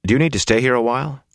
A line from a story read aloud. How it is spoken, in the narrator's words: Rand asked anxiously